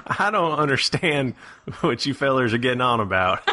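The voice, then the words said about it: Put-on Southern American accent. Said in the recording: “I like your southern accent. ... I thought it you were almost doing, like, makes Midwest.”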